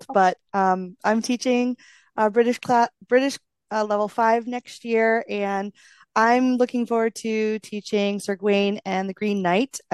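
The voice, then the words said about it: Voice affected by a cold. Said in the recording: “excuse my voice a little. I'm getting over a cold”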